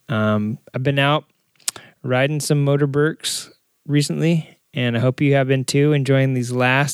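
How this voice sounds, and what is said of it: Rough, strained sick voice. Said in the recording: “my voice is all jacked up this week. I can't hold it together, man. I'm like coughing and throat hurts.”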